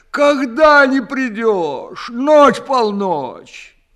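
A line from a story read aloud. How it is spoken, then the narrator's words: Sobbing hard. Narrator (Russian): совсем уж разрыдавшись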